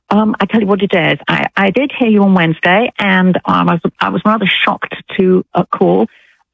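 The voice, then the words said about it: British accent. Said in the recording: “you don't sound like you're from Alabama ... I'm British. ... British accent ... I love her accent.”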